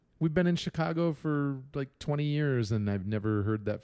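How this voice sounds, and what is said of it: Usual voice. Nothing is said of it.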